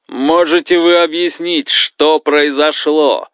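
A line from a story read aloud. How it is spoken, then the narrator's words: Roared. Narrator (Russian): взревел Омара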